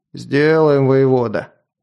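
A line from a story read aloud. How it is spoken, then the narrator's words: Deep bass voice. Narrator (Russian): пробасил десятник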